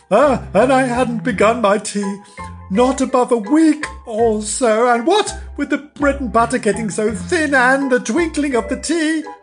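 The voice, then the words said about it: Trembling, nervous voice. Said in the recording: “the Hatter began in a trembling voice.”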